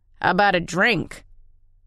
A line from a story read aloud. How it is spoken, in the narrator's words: Tennyson growled